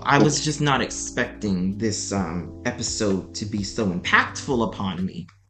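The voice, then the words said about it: Choked-up, emotional voice. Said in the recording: “I'm getting all choked up a little bit”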